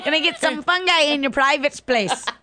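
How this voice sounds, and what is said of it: Put-on accent. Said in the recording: “I don't know why I did the accent with that.”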